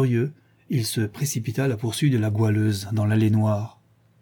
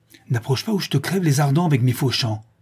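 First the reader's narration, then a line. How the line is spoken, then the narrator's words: Determined tone. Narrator (French): dit-elle d'un ton déterminé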